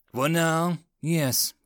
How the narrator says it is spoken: Blake sighed

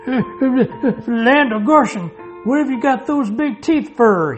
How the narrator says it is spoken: he gasped desperately

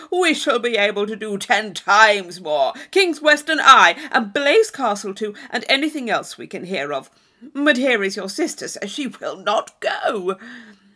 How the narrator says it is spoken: cried Thorpe

